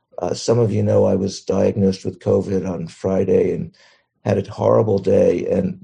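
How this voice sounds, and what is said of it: Sick-sounding voice with coughing. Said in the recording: “as some of you can hear in my voice and my coughing”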